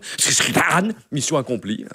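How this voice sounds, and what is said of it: Imitates another person's voice. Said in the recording (French): “une très belle imitation de Zidane”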